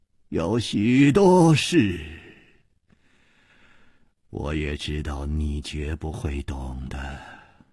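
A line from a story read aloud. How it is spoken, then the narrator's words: Calm, sighing. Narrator (Chinese): 李玉涵也不生气，竟又叹息了一声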